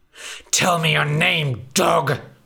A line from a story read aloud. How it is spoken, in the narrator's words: spat the big bad wolf